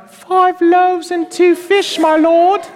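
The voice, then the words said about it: Put-on British accent. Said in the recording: “he's probably got a British accent.”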